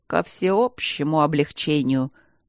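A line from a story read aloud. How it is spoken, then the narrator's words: Disdainful, through teeth. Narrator (Russian): процедил он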